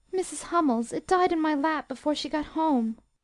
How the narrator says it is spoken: cried Beth with a sob

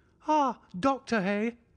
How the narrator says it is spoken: cried he, much excited

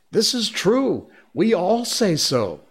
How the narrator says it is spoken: they would all shout together

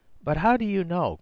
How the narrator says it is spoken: cried Rosamund desperately

